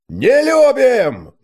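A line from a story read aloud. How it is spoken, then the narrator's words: Crowd roaring in unison. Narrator (Russian): дружно взревел центр таверны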